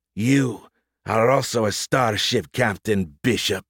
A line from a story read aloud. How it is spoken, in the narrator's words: she snarled